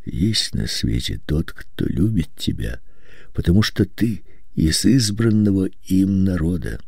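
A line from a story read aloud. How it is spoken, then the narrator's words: Quiet hoarse voice. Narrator (Russian): тихим простуженным голосом говорил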